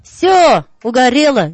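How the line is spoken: Cheerful shouting into phone. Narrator (Russian): весело закричал он в трубку

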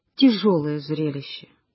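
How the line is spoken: Sighing. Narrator (Russian): Андрей Сергеевич вздохнул и сказал

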